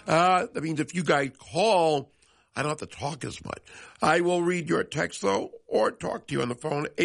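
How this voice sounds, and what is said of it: Voice affected by a cold. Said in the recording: “fighting through this cold that has been going around. Apologize for my voice.”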